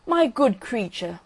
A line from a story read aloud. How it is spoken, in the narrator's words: cried the rocket, in a very haughty tone of voice